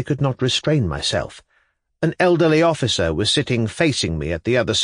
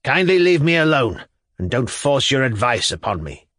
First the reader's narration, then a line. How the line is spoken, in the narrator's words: he rapped out sharply